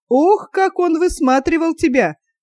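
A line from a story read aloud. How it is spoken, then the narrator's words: Laughing. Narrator (Russian): засмеялся Тарас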